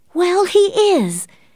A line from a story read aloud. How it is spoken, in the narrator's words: Catherine exclaimed before she knew it